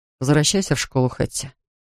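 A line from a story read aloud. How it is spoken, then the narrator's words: Even, level voice. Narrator (Russian): ровным голосом говорит мне Вальтер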